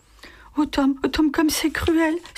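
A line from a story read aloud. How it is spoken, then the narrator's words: Sobbing. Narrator (French): sanglota Magie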